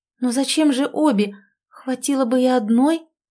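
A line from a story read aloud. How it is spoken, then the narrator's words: Uncertain. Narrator (Russian): начала неуверенно Оленька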